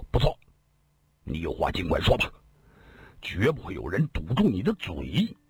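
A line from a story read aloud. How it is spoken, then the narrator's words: Stern sharp voice. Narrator (Chinese): 公孙羽一个箭步窜到了铁船甲面前，厉声说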